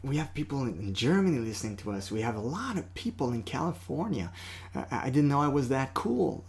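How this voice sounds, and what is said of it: French-Canadian accent. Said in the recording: “I'm this Canadian guy with a French accent”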